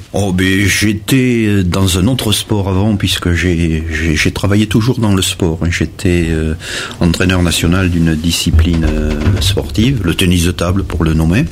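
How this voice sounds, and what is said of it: Regional French accent, not Charente. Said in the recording (French): “votre accent n'est pas celui de la Charente ... j'étais bordelais”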